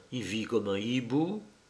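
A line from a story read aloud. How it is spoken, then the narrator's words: Hushed low voice. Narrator (French): dit tout bas le cousin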